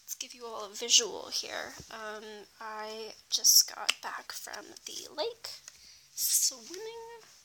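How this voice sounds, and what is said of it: Slightly hoarse, congested voice. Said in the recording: “Excuse my voice, I'm just finishing off a cold. So hopefully I don't sound too bad.”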